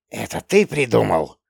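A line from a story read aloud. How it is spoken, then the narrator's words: Hissing. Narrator (Russian): зашипела селедка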